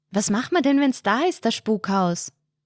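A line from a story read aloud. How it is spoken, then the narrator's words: Sudden call. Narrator (German): ruft Hirsi plötzlich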